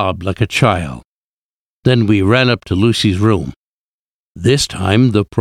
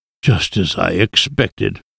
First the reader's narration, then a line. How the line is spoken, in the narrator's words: he muttered